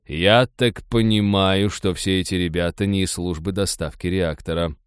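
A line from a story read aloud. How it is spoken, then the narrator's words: Grim joke. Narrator (Russian): мрачно пошутил Майкл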